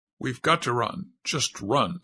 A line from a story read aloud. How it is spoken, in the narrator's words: said Zip firmly